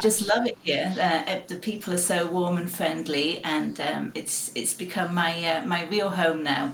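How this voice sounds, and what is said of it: Northern English accent. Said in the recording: “I'm from England, as you may be able to tell from my accent. I was born in Sheffield in Yorkshire in the north of England”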